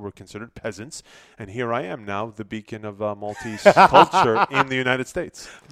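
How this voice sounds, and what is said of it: Gozitan Maltese accent. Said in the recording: “people made fun of my accent because we speak differently in Gozo than we do in Malta.”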